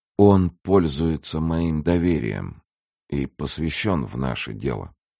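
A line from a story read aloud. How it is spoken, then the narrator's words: Calm captain's reply. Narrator (Russian): спокойно отвечал капитан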